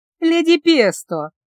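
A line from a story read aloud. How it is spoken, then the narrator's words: Exclamation. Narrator (Russian): воскликнула Гелла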